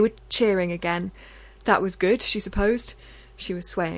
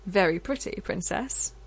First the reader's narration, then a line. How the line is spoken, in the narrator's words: he said